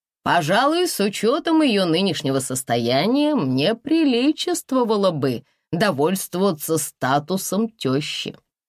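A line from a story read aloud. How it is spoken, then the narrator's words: Sincere laughter. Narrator (Russian): искренне рассмеялся он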